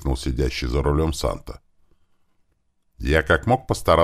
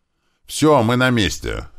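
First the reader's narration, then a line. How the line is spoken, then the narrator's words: Loud shout. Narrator (Russian): громко крикнул Санта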